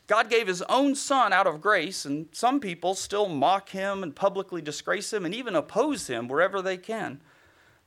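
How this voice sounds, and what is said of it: Southern American accent. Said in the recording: “you have a southern accent.”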